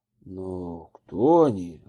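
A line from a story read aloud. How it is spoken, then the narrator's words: Confused question. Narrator (Russian): растерянно спросил жандарм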